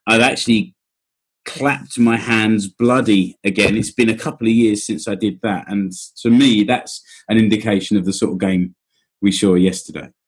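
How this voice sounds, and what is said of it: Husky, strained voice. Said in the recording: “My voice is a bit husky today because we were going for it for the entire game.”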